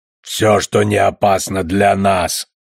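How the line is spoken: Grumble. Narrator (Russian): проворчал Клапа

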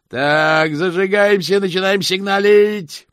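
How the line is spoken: Growled, grandfather. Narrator (Russian): прорычал дедушка

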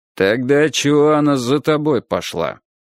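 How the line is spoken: Gloomy question. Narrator (Russian): мрачно спросил Фаэтончик

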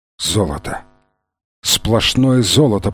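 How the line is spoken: Whisper. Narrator (Russian): прошептал Фрэнсис

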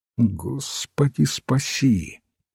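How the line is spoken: Muttered. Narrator (Russian): пробормотал отец Браун

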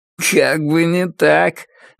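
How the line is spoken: Joyless laugh, unpleasant voice. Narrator (Russian): невесело рассмеялся обладатель неприятного голоса

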